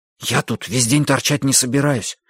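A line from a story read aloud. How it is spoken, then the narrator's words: Whispered. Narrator (Russian): прошептал Хилли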